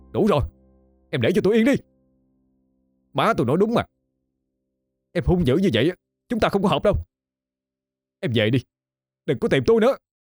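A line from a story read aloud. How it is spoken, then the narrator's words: Angry shout. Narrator (Vietnamese): Khải quát lên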